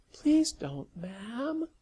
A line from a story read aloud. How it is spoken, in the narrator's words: Sally cooed